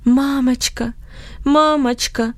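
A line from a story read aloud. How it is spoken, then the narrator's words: Moaning. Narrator (Russian): стонал он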